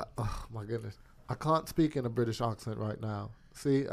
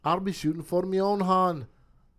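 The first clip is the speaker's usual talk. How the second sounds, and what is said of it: Attempted Irish accent. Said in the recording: “An Irish accent. I'm trying to get better at it. ... It's an Irish accent.”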